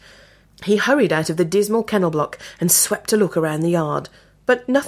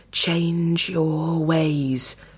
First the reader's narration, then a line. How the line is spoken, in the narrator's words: hissed in his ear